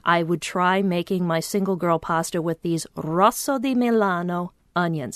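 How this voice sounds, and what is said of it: Italian pronunciation of Italian words. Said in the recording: “Nice accent.”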